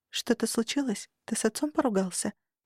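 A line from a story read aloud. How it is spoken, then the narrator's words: Quiet question. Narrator (Russian): спросила тихо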